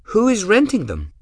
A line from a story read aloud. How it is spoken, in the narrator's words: Gwen asked brightly